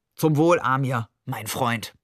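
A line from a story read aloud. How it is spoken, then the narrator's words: Deep-voiced reply. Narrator (German): mit tiefer Stimme antwortete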